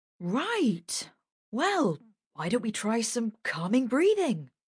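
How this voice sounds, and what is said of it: Chirpy cheerful voice. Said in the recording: “in his chirpiest voice.”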